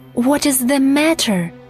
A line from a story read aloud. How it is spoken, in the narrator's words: cried